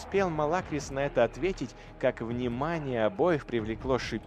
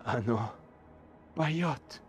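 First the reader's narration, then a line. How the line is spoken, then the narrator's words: Whisper. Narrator (Russian): прошептал Тошин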